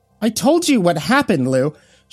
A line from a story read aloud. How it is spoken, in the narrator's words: Sheila snapped